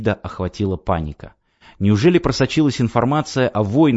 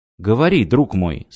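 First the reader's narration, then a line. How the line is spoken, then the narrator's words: Plain. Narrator (Russian): сказал Давид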